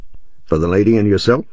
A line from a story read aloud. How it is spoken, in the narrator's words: asked the conductor